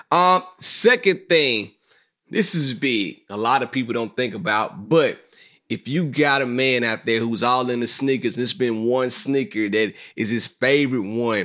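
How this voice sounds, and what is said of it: Hoarse, strained voice. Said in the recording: “I'm losing my voice too because I was kicking it this weekend”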